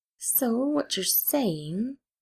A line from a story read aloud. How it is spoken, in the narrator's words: Gideon said slowly